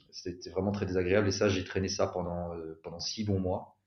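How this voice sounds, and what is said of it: Belgian French accent. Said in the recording (French): “mon accent belge”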